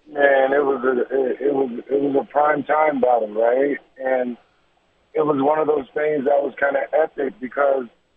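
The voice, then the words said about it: Hoarse, worn-out voice. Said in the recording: “Besides my voice is getting worse, all hoarse. Sounds weird.”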